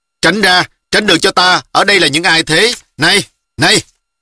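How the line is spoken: Arrogant loud shout. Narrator (Vietnamese): Người đánh xe lấy thế lực nhà quan cao giọng quát

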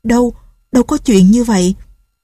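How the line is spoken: Shaken trembling voice. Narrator (Vietnamese): Nghe gã nói như vậy, run run nói

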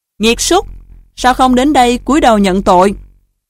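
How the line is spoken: Loud scolding. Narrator (Vietnamese): Chức nữ quát to

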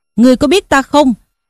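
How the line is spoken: Shouted question. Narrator (Vietnamese): quát hỏi rằng

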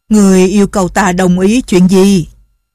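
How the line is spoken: Muffled disguised deep voice. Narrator (Vietnamese): chàng che miệng cho giọng khác đi, ồm ồm nói

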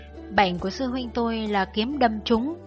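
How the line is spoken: Sighing, forced laugh. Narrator (Vietnamese): Cuối cùng Triệu Thanh thở dài cười gượng

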